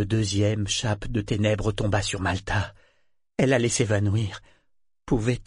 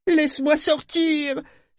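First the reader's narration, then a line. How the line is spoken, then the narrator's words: Weak cry. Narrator (French): criait-elle faiblement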